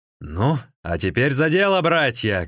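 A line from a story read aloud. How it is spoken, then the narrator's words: Shouted. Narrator (Russian): крикнул Сун Цзян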